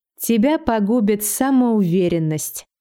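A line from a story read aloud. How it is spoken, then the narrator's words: Retort. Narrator (Russian): парировала я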